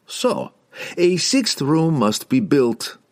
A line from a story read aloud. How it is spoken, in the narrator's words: laughed Pook, enjoying his little game